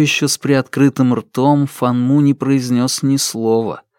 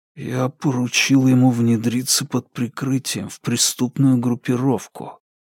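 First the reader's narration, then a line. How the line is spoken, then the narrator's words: Whisper. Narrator (Russian): прошептал он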